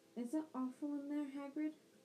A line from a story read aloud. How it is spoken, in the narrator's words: After a brief pause, Hermione said timidly